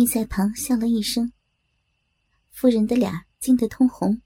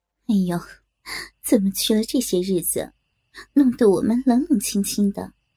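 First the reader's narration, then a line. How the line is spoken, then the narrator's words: Laughing. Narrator (Chinese): 夫人忙同长姑接着笑道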